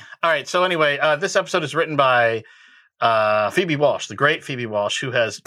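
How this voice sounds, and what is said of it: Usual voice. Nothing is said of it.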